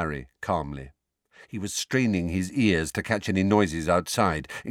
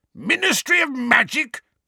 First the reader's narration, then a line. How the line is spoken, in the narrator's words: bellowed Uncle Vernon